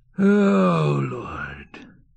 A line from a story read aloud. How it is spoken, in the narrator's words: sighed the cook